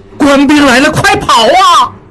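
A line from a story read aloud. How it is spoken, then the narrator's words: Shouting. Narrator (Chinese): 应英大喊一声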